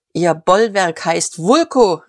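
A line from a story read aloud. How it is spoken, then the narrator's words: Distant call. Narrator (German): rief wieder die Stimme vom Büro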